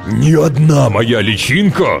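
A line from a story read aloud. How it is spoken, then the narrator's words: Fierce roar. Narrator (Russian): свирепо, а затем взревел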